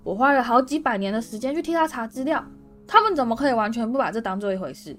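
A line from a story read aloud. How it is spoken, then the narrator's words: Wild roar. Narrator (Chinese): 荣恩狂吼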